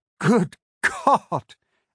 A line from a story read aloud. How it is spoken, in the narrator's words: I laughed